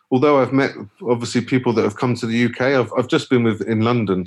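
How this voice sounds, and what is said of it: Bristol English accent. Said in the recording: “I can hear it in the accent... Everyone can... You're not from London.”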